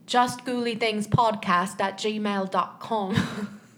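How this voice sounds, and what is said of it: Poor put-on British accent, mumbled. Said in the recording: “Can I do this in a British accent?... that's awful... There's like marbles in your mouth a little bit.”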